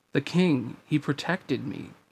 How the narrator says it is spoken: he murmured

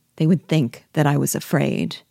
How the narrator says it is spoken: Pierrot replied coldly

